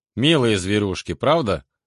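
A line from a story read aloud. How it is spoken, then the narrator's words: Dry remark. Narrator (Russian): прокомментировал я сухо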